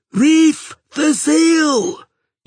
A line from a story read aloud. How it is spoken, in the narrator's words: yelled Asa Thiazzi